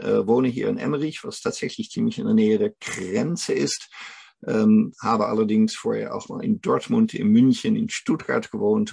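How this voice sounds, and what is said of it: Dutch accent in German. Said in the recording (German): “auf Holländisch auch... man hört meinen Akzent immer noch... Tatsächlich bin ich aus den Niederlanden”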